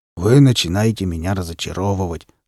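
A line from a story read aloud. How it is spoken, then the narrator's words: Hoarse voice. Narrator (Russian): сказал хриплый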